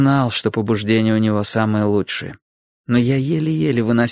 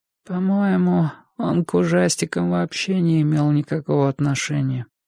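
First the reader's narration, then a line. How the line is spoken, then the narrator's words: Weak, irritating little voice. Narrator (Russian): продолжал Энди своим слабым, раздражающим голоском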